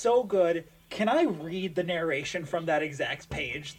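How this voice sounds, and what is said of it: Usual voice. Nothing is said of it.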